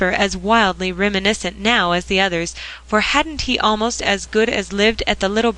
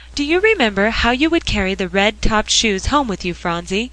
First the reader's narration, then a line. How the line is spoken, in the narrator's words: cried Polly